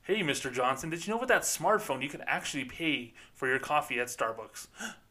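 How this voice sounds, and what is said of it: Fake salesy customer-service voice. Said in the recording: “That sounds like that fake voice.”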